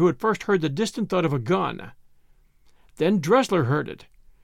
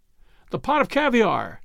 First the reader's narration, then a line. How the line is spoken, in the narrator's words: cried Ainsley